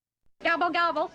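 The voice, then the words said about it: Imitates a turkey gobble. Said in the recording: “my Hokie imitation”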